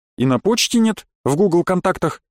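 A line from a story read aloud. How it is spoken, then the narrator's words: Plain. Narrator (Russian): спросил Денис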